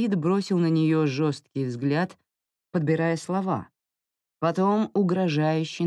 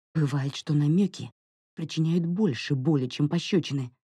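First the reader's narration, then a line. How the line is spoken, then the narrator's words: Flustered mutter. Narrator (Russian): пробормотала Тифен, сама потеряв голову от такого оборота, что приняло их противостояние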